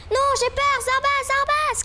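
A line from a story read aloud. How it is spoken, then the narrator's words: Shouted. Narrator (French): cria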